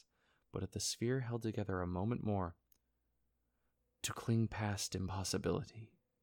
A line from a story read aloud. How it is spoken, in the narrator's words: Glacian whispered avidly